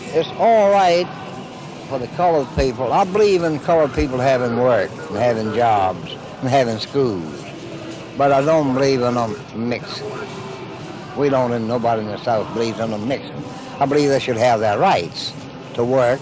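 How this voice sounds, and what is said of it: Put-on Southern accent impression. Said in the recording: “I'm from the south. You know my impression.”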